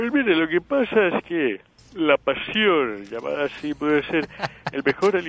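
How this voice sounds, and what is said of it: Usual voice. Nothing is said of it.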